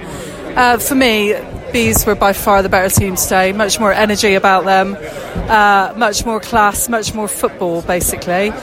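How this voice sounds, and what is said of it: Bristolian English accent. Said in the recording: “I've got a Bristolian accent”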